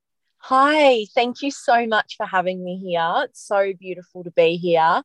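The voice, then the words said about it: Pleasant non-local accent. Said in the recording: “your beautiful accent”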